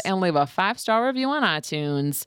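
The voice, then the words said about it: Slight country twang. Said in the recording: “I gave that with a little bit of a country twang”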